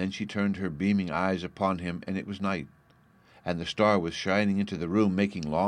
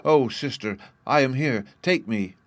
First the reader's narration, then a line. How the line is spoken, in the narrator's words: the child cried